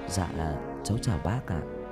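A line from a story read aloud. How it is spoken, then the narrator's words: Quiet voice. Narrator (Vietnamese): Tân nhỏ giọng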